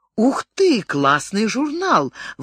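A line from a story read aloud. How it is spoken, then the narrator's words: Delighted exclamation. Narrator (Russian): восхищенно воскликнула Бриджит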